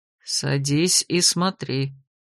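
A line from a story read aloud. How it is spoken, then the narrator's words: Barely audible command. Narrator (Russian): еле слышно приказал Вирденс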